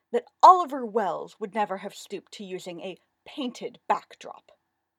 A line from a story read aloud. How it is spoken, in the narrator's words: the viper-taught woman said sharply